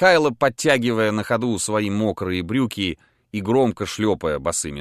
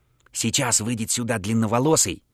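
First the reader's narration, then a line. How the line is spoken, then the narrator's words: Whispering. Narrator (Russian): зашептал Михайло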